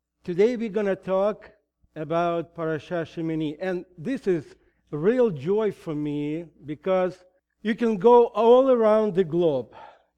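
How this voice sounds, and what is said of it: Heavy Russian accent in English. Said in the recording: “I still better speak in Russian than in English. And you probably have noticed my heavy accent”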